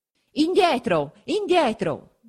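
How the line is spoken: Soldiers shouting. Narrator (Italian): gridano gli alabardieri

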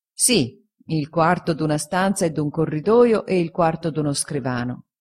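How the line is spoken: Plain. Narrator (Italian): rispose Traddles

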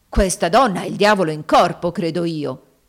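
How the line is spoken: Exclaimed. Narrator (Italian): esclamò Haley

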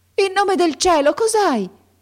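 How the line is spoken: Old woman's anxious shout. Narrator (Italian): gridò la vecchia palpando affannosamente

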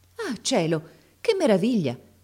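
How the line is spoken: Exclaimed. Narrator (Italian): esclamò allora

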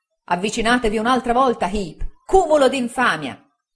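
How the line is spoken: Shouting. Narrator (Italian): gridò il signor Micawber

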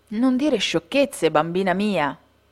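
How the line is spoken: Plain. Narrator (Italian): rispose la mamma

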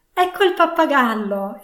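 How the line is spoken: Exclaimed. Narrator (Italian): esclamò Scrooge

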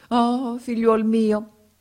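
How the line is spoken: Sorcerer exclaiming. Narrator (Italian): esclamò il mago africano

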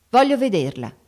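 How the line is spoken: Curt, sharp repetition. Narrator (Italian): ripeté seccamente

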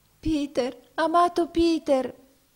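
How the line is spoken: Exclaimed in tears. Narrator (Italian): esclamò essa in pianto

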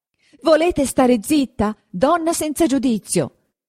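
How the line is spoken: Shouting into ear. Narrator (Italian): le gridò in un orecchio don Abbondio

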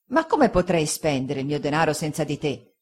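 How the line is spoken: Grave remonstrance. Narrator (Italian): disse il pescatore Peggotty in tono di grave rimostranza

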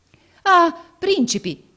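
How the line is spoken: Exclaimed. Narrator (Italian): esclamò egli

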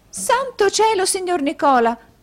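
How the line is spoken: Young woman exclaiming. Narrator (Italian): esclamò la signorina Lacrivi

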